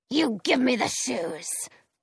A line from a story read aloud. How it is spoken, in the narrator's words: the witch snarls